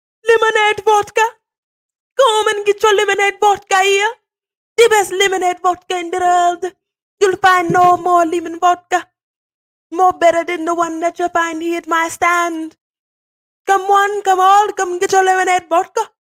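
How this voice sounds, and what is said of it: Screamed sales pitch, put-on accent. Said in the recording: “maybe an accent for dramatic flair. And so what do I start screaming?”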